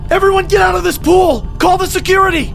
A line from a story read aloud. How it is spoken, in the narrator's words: I came up screaming